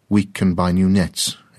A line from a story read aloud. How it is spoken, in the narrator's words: his father said